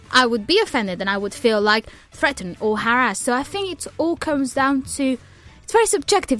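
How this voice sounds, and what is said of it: Speaker with a noticeable accent. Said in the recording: “People make fun of my accent all the time”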